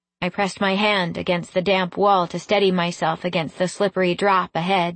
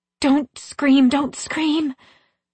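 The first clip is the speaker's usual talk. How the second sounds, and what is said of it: Harsh whisper. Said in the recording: “My voice was a harsh whisper”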